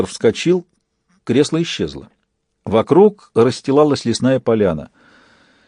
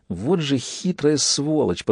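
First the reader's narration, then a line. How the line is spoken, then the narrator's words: Through gritted teeth. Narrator (Russian): процедил паяц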